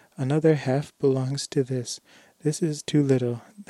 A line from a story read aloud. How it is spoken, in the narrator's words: he cried